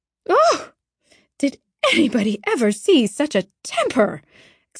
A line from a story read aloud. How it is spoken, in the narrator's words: exclaimed the horrified Mrs